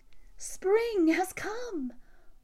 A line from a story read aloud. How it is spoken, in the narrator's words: they all twittered and chirped, singing